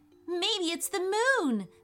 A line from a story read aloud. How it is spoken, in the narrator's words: said Ethan excitedly